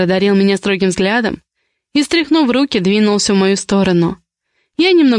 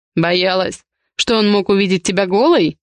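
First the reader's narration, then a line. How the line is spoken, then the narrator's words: Snorting chuckle. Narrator (Russian): хмыкнул Ивар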